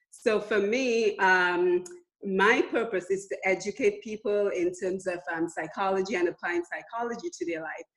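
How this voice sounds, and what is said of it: Foreign accent. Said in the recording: “you can hear I have a foreign accent”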